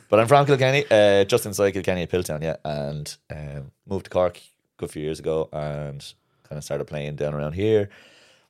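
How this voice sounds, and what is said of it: Irish accent, watered-down Dublin-like. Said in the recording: “a lot of people think it's a Dublin accent. It's not. It's kind of a watered down Dublin ... accent, Waterford accent.”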